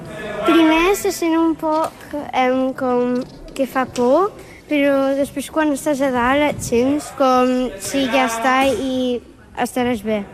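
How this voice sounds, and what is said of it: Catalan with an English accent. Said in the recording (Catalan): “el teu accent, eh? El teu accent. Parlant en català, però com era anglès, el teu accent va canviar una mica”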